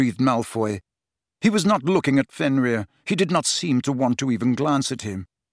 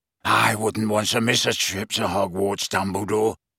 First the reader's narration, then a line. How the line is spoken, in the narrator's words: rasped Greyback